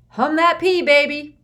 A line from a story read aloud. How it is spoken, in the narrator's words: somebody shouted to Joe Hatton